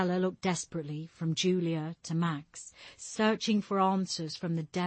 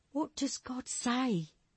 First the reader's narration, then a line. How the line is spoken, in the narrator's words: Stella pleaded